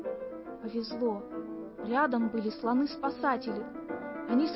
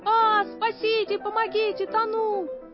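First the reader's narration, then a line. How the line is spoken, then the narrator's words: Screaming with all strength. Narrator (Russian): Что было силы, неосторожный закричал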